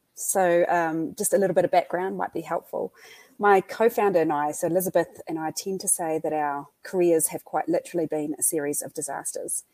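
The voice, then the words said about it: New Zealand accent. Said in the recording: “your audience might hear the New Zealand accent”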